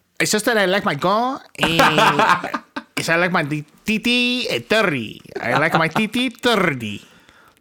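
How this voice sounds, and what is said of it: Put-on foreign accent. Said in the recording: “You can drop the accent ... you speak perfect English ... stop speaking the accent”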